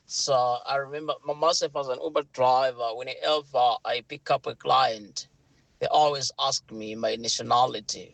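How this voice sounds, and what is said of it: British accent. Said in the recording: “my British accent ... I've got a British accent”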